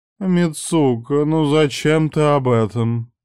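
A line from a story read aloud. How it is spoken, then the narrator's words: Moaning. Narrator (Russian): простонала Каори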